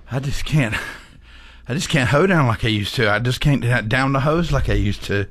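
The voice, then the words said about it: Out of breath. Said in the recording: “getting out of breath.”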